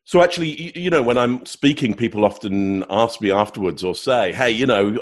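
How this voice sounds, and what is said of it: English accent. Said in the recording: “Get an English accent ... the British English”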